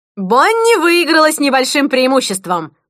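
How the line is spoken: Shouting. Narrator (Russian): прокричала Рената

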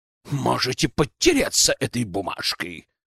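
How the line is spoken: Angry growl. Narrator (Russian): Прорычал в злобе

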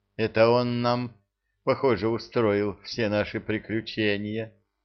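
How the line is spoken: Sigh. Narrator (Russian): вздохнул Тинувель

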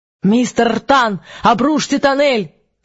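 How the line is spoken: Professorial shout over radio. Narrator (Russian): закричал эфир профессорским голосом

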